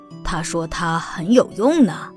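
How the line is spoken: Monster whispering. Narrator (Chinese): 第一个怪物对第二个怪物低声说

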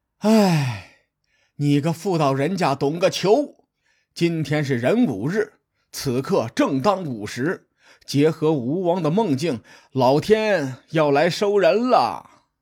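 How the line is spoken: Lamenting, long sigh. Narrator (Chinese): 公孙胜仰天长叹说

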